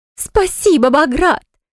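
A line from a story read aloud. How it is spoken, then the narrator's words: Joyful squeal. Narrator (Russian): Она завизжала от радости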